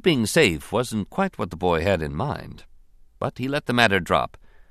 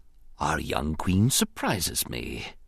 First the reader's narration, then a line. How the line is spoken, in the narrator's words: he whispered thoughtfully